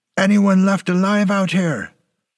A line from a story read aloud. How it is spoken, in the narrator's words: he yelled the words at a blood-stained killing field